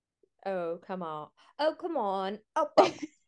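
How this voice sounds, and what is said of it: Good impression of Jess. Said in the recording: “That's a really good Jess impression.”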